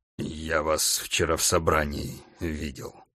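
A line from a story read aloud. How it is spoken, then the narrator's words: Mutter. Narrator (Russian): пробормотал Бугров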